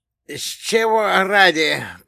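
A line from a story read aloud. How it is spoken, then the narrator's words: Hoarse rasp, straining. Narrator (Russian): прохрипел он, пытаясь приподняться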